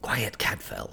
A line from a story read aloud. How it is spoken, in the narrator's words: whispered back